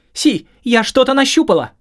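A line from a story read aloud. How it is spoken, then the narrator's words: Shouted. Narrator (Russian): крикнула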